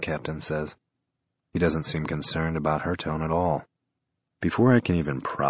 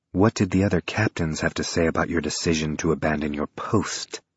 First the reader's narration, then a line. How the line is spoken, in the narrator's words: Mira hisses